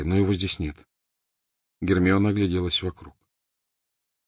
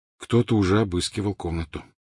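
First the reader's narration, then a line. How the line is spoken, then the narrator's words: Plain. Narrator (Russian): сказал Гарри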